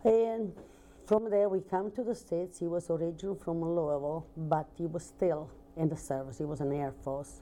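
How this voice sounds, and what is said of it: Italian accent with Southern tinge. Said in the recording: “that's where I picked up my Southern ... Italian with a Southern accent”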